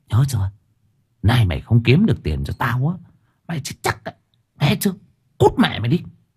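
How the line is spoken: Menacing low whisper. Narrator (Vietnamese): My nói thì thầm chỉ đủ cho thằng bé nghe

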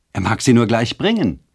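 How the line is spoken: Calling out. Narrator (German): rief Luciane

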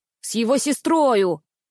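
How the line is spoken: Nearly shouted. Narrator (Russian): почти выкрикнул в голос Никс

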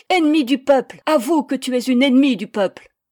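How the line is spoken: Hysterical youths screaming. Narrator (French): Les jeunes en vociférant, hystériques

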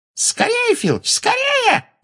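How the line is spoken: Shrill squeal. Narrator (Russian): взвизгнула Амбридж

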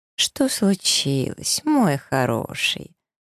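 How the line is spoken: Feigned tenderness. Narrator (Russian): Притворно-ласково повторяю

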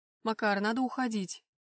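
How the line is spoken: Growl. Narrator (Russian): рыкнул

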